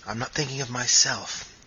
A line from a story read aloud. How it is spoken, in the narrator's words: he interrupted sharply